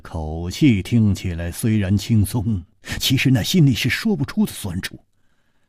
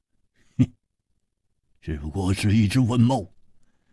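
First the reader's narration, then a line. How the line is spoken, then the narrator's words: Forced laugh. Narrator (Chinese): 胡铁花勉强笑了笑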